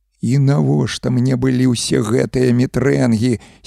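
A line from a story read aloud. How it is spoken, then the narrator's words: Hoarse panicked groan. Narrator (Belarusian): сіпла з панікай у голасе прастагнаў Юзік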